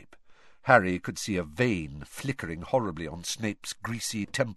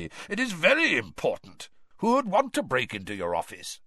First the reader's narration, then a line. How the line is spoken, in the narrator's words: growled Moody